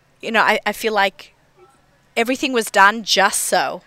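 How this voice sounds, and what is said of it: Australian accent. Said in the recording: “this Australian accent”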